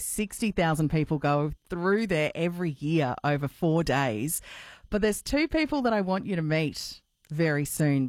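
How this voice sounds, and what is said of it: Slightly croaky, hoarse voice. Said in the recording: “my voice is a little croaky today”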